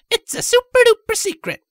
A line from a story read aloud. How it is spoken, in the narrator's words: Pink exclaimed happily